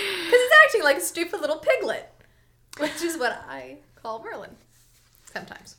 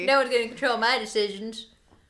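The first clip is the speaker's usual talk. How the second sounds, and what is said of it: Silly put-on character voice. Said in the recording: “give him the Merlin voice”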